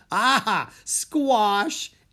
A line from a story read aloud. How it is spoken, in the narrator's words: Annie laughed